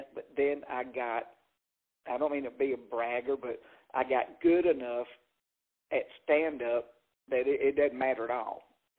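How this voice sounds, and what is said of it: Noticeable regional accent. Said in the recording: “I used to worry about my accent”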